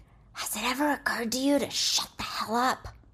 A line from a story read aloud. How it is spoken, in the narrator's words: One of the bookworms at the end of the table snaps back and loud whispers